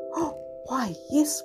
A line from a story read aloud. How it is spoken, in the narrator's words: whispered Sue